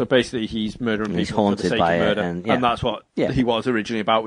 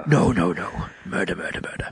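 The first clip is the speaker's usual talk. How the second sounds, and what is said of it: Menacing bad guy character voice. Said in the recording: “That's a good impression... That's the same as my Landy voice... Just my bad guy voice.”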